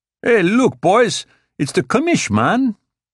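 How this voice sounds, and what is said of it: Shouted, over-the-top Chicano accent. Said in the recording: “he shouted in an over-the-top Chicano accent.”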